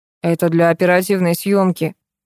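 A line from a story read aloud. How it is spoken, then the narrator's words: Gloomy explanation. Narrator (Russian): мрачно пояснил Баков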